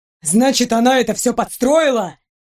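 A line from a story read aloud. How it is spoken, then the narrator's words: Almost shouting. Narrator (Russian): Принц почти кричал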